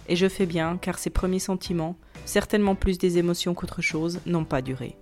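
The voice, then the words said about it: Slightly tired voice. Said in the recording (French): “On sentait à sa voix qu'effectivement elle était un tout petit peu fatiguée. Un tout petit peu”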